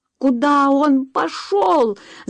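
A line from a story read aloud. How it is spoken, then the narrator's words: Frightened scream. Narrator (Russian): закричала Джулия, неожиданно испугавшись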